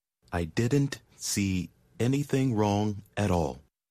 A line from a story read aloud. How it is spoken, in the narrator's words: he said at last, slowly